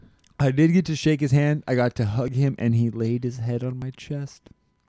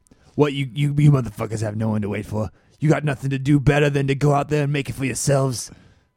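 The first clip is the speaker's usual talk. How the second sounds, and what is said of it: Imitates another person's voice. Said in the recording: “I can't do a good Joey Diaz impersonation. ... You're trying, though.”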